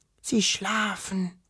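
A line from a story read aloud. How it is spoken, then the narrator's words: Disappointed whisper. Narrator (German): flüsterte Wischel enttäuscht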